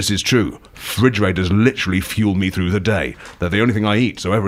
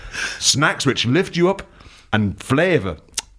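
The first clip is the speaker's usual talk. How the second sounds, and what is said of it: Switches to a different accent. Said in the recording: “change in accent?”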